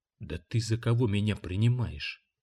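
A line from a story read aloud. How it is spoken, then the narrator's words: Quiet and furious. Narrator (Russian): Тихо и яростно сказал он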